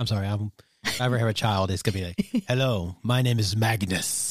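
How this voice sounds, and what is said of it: Usual voice. Nothing is said of it.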